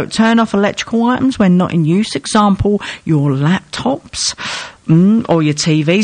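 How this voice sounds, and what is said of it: Usual voice. Nothing is said of it.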